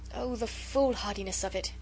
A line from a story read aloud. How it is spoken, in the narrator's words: she sighed